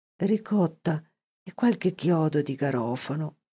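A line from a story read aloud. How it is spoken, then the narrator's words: Dying man's sigh. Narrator (Italian): sospirò il moribondo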